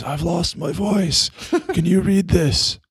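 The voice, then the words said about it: Raspy Godfather-style character voice. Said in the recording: “Like I'm doing my best Godfather impersonation”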